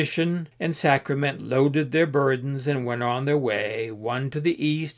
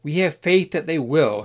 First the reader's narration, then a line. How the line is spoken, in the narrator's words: Sacrament yelled back